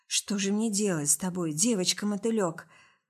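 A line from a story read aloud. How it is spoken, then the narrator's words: Tired exhale. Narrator (Russian): Выдохнул устало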